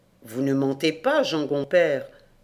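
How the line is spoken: Plain. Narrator (French): dit-il

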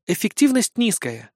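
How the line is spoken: Calm reply. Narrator (Russian): спокойно отозвалась Эмма

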